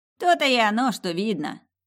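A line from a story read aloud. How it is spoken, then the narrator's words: Snort. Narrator (Russian): Фыркнул Онни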